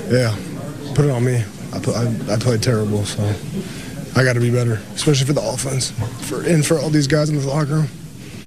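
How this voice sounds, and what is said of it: Choked-up, emotional voice. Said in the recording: “he was getting choked up”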